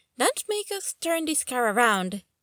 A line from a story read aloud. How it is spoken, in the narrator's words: Danny added, and they both giggled